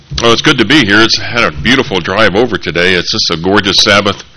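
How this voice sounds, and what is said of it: Slightly nasal, congested voice. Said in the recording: “I've been battling this sinus thing for about 3 weeks now... I sound a little nasal”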